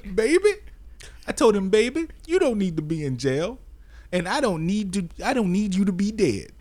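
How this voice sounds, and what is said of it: Put-on grieving mother voice. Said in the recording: “you gotta do the my baby wouldn't hurt nobody voice”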